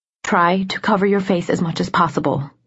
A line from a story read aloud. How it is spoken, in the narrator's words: she muttered